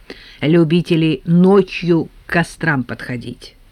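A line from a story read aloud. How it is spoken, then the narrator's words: Calm explanation. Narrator (Russian): спокойно объяснил Евтей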